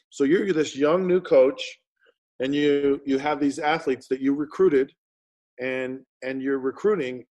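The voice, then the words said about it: Utah accent. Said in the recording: “I can hear my Utah roots. I can hear the accent of someone who is from Utah.”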